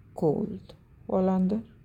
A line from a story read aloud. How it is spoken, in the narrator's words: he murmured, his voice a low rumble